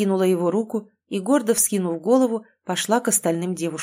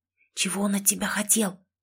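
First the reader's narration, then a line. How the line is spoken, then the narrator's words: Conspiratorial whisper. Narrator (Russian): заговорщически зашептала Кэти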